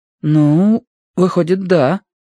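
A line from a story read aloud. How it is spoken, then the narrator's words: Uncertain reply. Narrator (Russian): неуверенно отозвался Гига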